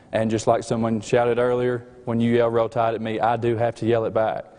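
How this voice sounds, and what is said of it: Slight Southern US accent. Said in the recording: “my slight, slight accent ... we are from the state of Alabama”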